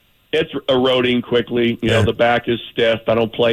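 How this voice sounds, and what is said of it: Usual voice. Nothing is said of it.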